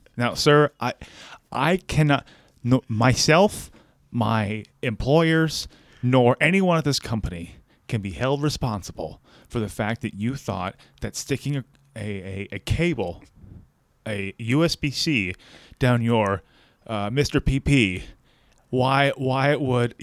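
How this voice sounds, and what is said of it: Mock serious voice. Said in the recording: “serious voice”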